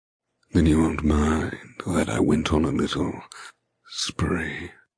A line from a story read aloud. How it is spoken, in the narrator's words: He asks in a low voice